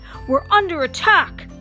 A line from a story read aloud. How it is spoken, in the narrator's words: Spider-Man yelled